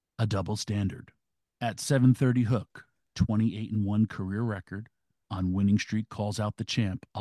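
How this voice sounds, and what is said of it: Mock-serious formal reading voice. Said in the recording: “in my serious Twitter voice”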